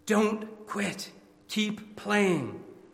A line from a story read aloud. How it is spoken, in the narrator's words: whispered in the boy's ears